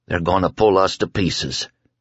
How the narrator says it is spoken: he said in a dry voice

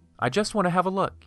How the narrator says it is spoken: he said

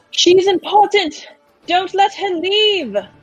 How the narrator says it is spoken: Sumi's going to yell down

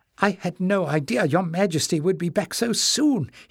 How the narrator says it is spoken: cried

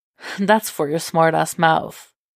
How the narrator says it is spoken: Jason says, chuckling

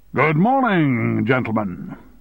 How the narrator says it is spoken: said in a loud, cheerful voice

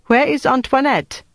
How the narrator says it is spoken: the woman called out

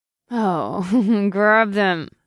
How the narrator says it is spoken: she moaned

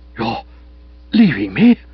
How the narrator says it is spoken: I gasped

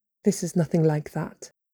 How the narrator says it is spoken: he murmured

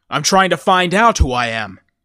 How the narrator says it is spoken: said hotly

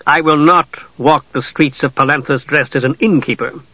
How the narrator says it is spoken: Steele said sternly

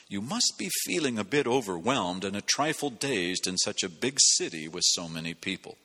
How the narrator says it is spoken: the mercy shower whispers

